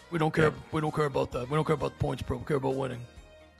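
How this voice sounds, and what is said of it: Imitates another person's voice. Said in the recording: “It's a bad impression.”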